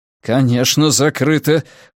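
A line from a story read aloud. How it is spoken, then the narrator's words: Through gritted teeth. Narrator (Russian): процедил Тео сквозь зубы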